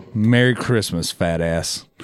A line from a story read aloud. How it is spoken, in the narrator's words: Mephistopheles chuckled to himself